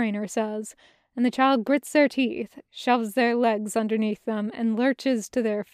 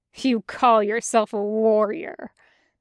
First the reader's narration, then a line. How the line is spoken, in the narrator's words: the trainer sneers